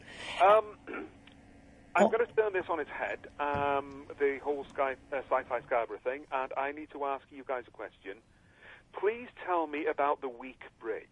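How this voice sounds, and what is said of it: Welsh accent. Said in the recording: “it must be my Welsh accent.”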